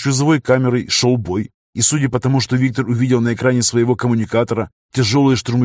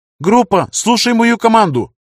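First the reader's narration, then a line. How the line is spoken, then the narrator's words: Shout in a breaking voice. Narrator (Russian): срывающимся голосом крикнула Зандаун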